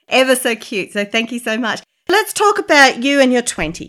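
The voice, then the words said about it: Speaks with a noticeable accent. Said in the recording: “I just want to listen to your accent. Keep talking.”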